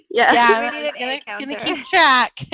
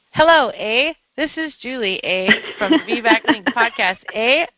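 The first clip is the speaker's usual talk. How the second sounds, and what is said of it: Put-on Canadian accent. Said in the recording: “I'm practicing my Canadian accent.”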